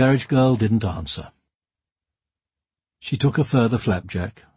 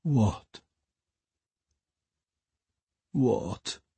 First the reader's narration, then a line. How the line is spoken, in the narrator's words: moaned Maureen, rocking her head in her hands